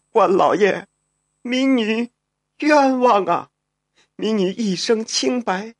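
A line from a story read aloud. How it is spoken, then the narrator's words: Choked sobbing. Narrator (Chinese): 他哽咽着说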